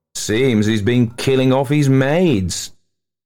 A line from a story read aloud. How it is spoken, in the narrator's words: he laughed